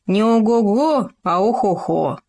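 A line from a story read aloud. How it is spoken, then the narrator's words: Grumble. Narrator (Russian): пробурчал Хома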